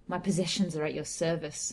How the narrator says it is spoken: I replied bitterly

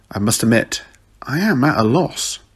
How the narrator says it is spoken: the Doctor muttered

